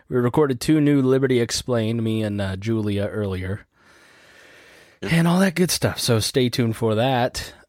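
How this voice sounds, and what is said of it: Weak, tired-sounding voice. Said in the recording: “my voice sounds weak ... I definitely feel like I'm sick ... So if I sound weak”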